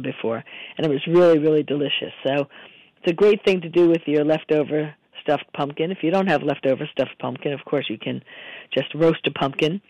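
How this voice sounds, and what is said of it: Hoarse, strained voice. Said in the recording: “apologize for my voice, as you can hear. I lost my voice a lot this weekend”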